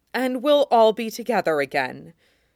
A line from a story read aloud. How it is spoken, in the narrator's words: Catelyn said, a statement, as if she could make it truth by saying it firmly enough